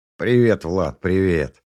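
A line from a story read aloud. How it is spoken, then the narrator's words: Snorting. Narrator (Russian): хмыкнул Меркулов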